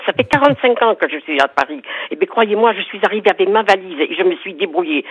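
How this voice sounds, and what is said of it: Southwestern French accent. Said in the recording (French): “malgré mon accent du sud-ouest ... c'est pas l'accent des Hauts-de-Seine qu'on entend avec Marie-France”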